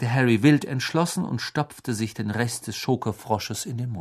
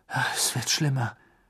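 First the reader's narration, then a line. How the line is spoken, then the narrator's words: Murmured. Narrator (German): murmelte Harry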